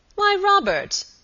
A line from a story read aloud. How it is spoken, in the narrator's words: exclaimed Sir Michael